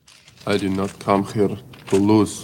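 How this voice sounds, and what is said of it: Soft Russian accent. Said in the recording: “that's the best Russian accent he's done ... I think he did really good there ... his voice is very soft”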